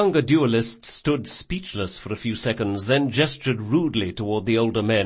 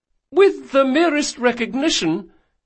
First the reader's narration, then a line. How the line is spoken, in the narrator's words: continued the young duelist desperately